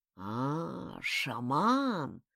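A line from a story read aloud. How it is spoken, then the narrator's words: Wheezed hoarsely. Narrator (Russian): прохрипел Ваня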